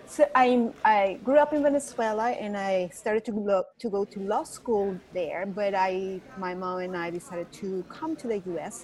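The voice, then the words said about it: Venezuelan accent. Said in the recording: “So that's the accent you're hear ... So that's not my Texan accent. It's my Venezuelan accent.”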